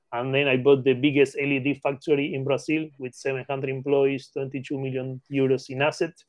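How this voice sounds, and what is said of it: Argentine Spanish accent in English. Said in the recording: “as you can catch my accent, I'm not an English native. I born in Argentina, Patagonia.”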